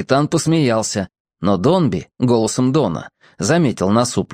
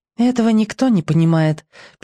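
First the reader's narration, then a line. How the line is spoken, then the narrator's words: Sad. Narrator (Russian): печально отозвался Бамбала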